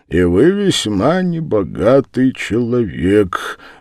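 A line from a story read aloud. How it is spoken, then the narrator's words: Sad. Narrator (Russian): грустно сказал Дуботолк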